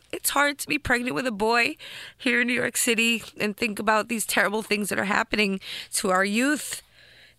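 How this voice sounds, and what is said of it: Emotional, tearful voice. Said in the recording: “I'm so sorry, I'm getting emotional ... So forgive me for getting emotional”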